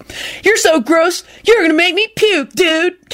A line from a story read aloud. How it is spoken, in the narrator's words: Kenny screamed